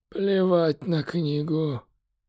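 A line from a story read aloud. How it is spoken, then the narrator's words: Emperor's hoarse rasp again. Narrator (Russian): Вновь прохрипел император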